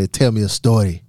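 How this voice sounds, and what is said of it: Attempted Spanish accent. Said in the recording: “Was that good Spanish accent? ... No”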